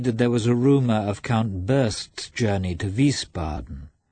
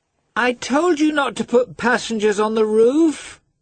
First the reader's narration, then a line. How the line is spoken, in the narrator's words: the girl shouted in English